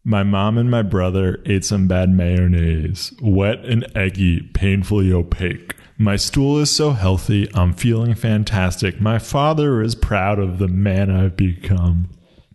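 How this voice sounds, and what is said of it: Deliberately deeper voice. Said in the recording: “Can I do it again in a deeper voice?”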